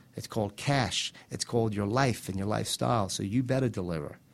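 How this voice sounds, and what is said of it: New York accent. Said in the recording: “a guy with a New York accent”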